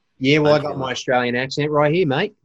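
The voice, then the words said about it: Put-on Australian accent, fairly good. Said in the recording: “Australian accent ... That's actually pretty good. I like that.”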